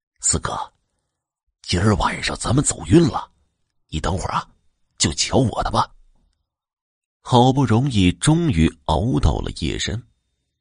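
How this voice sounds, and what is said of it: Quiet, hushed speaking voice. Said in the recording (Chinese): “小声的说道”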